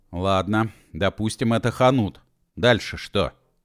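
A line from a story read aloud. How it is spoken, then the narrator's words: Angry question. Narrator (Russian): зло спросил Машков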